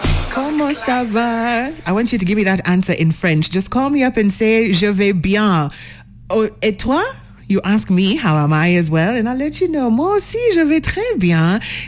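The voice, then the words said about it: Put-on French accent. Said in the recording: “I can maintain the accent, maybe not the language.”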